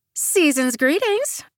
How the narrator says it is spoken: I say in a jocular tone

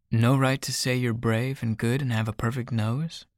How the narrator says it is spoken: Ryder chuckles

